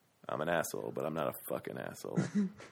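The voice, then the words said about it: Low, quiet, growly George Clooney impression. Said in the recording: “great George Clooney impression ... It's basically ... just talking in a quieter voice ... Like lower and like more, a little more ... It's like growler. Vocal Fry.”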